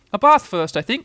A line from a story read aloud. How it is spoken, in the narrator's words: said Kanga in a cheerful voice